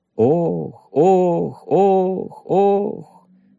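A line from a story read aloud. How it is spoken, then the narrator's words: Echoing moans. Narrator (Russian): застонала пещера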